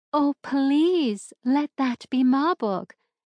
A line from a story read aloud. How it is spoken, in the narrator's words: begged